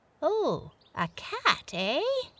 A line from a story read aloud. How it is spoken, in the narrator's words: exclaimed the white animal